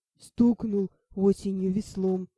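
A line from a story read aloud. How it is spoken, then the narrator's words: Deep bass, big fellow. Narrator (Russian): пробасил детина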